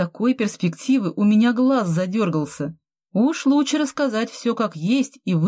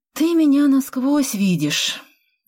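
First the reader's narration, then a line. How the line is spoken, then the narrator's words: Sighing. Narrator (Russian): вздохнула я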